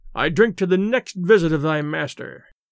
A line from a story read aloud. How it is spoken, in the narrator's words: Pierre cried